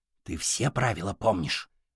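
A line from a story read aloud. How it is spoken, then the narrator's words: Whispered question. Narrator (Russian): шепотом спросил друга Серый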